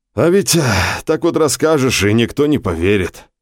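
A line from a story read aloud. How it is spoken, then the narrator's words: Saddened sigh. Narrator (Russian): огорченно вздохнул Гео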